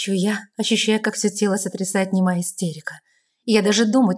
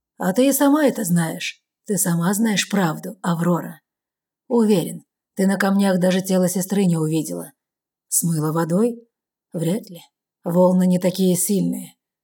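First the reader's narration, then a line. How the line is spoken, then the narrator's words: Calm explanation. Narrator (Russian): спокойно поясняет Кэллум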